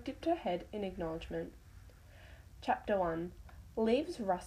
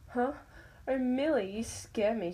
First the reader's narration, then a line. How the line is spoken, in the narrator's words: giggled